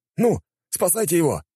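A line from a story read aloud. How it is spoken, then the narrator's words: Exclaimed. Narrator (Russian): воскликнул кто-то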